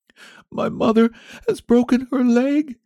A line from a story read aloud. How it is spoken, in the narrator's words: answered the boy between his sobs